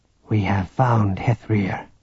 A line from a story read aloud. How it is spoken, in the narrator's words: Relau said softly